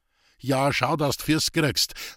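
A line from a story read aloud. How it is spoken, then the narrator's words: Calling after someone. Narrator (German): rief Roman hinter ihm her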